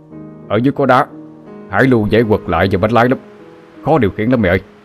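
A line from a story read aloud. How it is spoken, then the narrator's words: Near-shouting. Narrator (Vietnamese): Ông ta nói mà như hét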